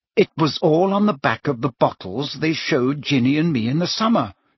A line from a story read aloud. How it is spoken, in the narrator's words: she said coldly